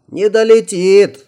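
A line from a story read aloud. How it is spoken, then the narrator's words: Shouted. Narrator (Russian): закричал я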